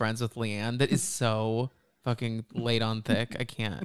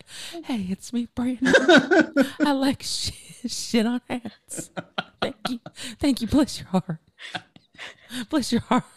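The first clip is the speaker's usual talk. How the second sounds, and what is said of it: Breathy, soft, innocent-sounding imitated voice. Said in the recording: “That is such a good impression because it's so breathy. It's like she's just like a poor, innocent little flower”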